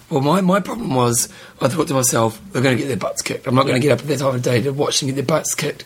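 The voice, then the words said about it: Hoarse, fading voice. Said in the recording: “As you can tell, I'm losing my voice. ... I've deconditioned my throat”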